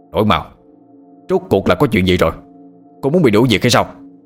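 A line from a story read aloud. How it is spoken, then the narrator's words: Angry shouting. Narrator (Vietnamese): viện trưởng Lâm tức giận quát lên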